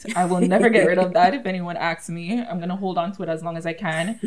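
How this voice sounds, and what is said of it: Thick Jamaican accent. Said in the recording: “I was raised in Jamaica, hence the thick accent.”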